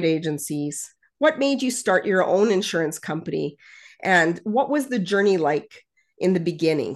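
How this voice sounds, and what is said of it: Canadian accent. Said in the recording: “I hear a Canadian accent in your voice.”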